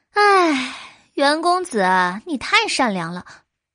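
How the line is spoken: Sighing. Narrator (Chinese): 韦飞烟叹道

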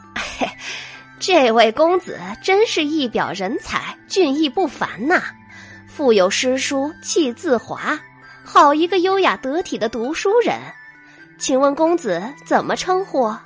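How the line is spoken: Laughing praise. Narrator (Chinese): 花姨笑赞道

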